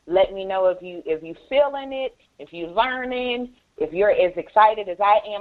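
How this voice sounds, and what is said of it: Excited, energetic delivery. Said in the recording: “I hope you guys can hear the excitement in my voice.”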